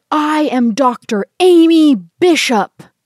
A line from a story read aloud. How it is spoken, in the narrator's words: she roars